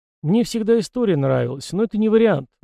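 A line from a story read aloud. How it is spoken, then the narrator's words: Sighing. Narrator (Russian): вздохнул он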